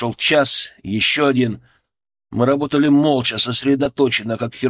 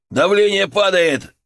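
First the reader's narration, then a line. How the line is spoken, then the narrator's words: Yelling. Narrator (Russian): заорал Антон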